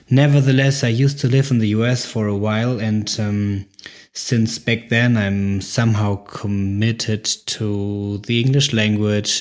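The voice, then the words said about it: German-accented English. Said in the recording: “I'm German, I have a German accent”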